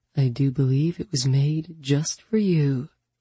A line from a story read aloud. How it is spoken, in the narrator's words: His voice husky with renewed desire, he said